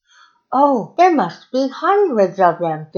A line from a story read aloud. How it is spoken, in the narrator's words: Danilo exclaimed